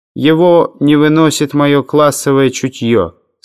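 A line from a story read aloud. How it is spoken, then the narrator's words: Plain. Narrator (Russian): сказал Гаван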